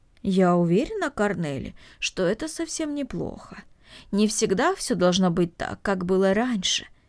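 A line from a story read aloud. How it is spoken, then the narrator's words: Thoughtful. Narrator (Russian): задумчиво произнесла Марта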